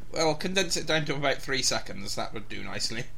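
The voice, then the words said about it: Oddly British-sounding accent. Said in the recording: “I have an oddly British accent ... Oh, you're so BBC”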